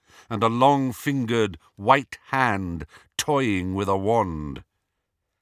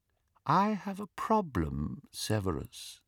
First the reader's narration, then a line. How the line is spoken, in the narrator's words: said Voldemort softly